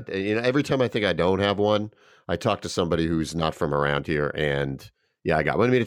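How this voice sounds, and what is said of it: Mild New York accent. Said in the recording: “it's not a thick Brooklyn accent, but it is definitely a New York accent.”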